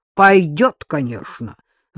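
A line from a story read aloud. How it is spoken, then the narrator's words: Grumbling snort. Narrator (Russian): ворчливо фыркнула за Макара Дарья Олеговна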